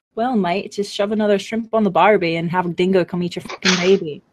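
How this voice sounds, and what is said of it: Put-on Australian accent. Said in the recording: “Can I do an Aussie accent?”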